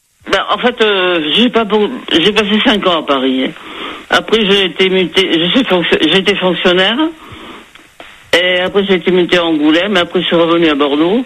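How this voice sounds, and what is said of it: Slight southwestern French accent. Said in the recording (French): “j'entends le petit accent du sud derrière ... on l'entend, là, vous avez une petite intonation du sud-ouest”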